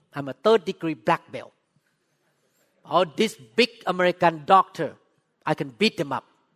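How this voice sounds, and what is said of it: Thai-accented English. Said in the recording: “I spoke with accent. I'm from Thailand.”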